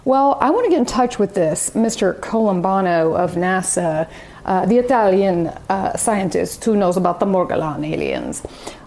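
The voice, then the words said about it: Bad put-on Italian accent. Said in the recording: “That was the worst Italian accent ever.”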